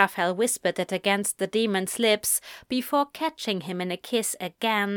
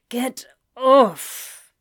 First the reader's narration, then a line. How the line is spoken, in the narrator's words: grunted